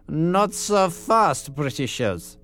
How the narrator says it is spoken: sneered a tight-lipped German

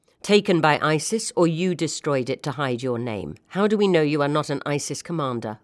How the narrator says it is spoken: asked Taha

